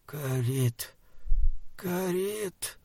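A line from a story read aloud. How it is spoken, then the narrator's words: Quiet hiss. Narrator (Russian): прошипел тихо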